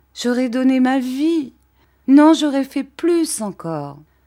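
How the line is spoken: Exclaiming. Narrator (French): s'écria-t-elle

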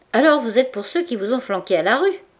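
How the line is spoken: Plain question. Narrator (French): demanda Goujon

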